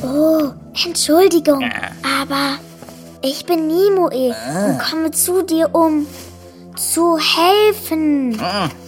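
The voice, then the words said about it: Whispering. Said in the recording (German): “Du musst nicht flüstern.”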